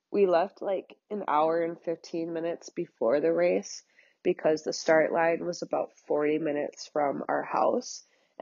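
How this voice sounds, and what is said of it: Congested, stuffed-up voice. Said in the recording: “sorry if I sound stuffed up right now”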